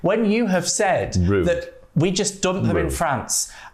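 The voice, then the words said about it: Northern English accent. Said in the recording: “you heard my Northern accent then”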